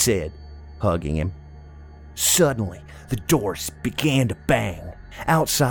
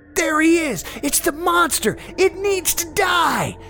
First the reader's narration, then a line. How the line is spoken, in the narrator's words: all screamed in tandem